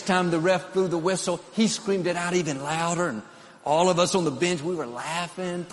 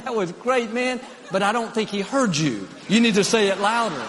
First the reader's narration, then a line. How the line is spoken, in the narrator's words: laughed, said